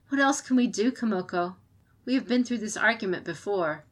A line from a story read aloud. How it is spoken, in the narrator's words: She sighed at the end, adding